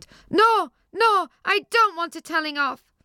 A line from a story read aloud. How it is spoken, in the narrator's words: Johnny knew he was in trouble and yelled